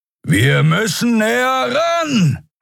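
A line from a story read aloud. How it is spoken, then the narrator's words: Shouting over howling wind. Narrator (German): rief über den heulenden Fahrtwind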